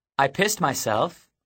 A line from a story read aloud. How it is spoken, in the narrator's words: said cheerfully